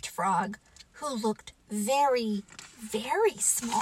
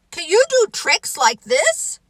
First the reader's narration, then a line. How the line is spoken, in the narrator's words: cried Toad